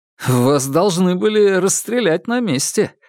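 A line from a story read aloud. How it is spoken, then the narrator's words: Laughing. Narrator (Russian): рассмеялся Макар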